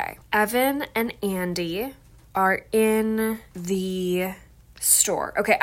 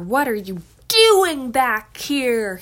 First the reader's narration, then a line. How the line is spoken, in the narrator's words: He bellowed